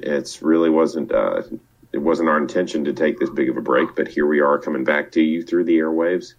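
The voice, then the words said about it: Congested, sick-sounding voice. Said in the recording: “tell from my voice that I am probably going to die at any day from a sinus infection that's now reaching its third week”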